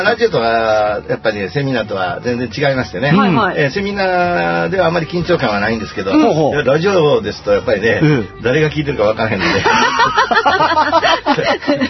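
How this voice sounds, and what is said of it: Kansai dialect Japanese accent. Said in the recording (Japanese): “関西弁で喋らせていただいてるので ... 私の標準語は関西弁です”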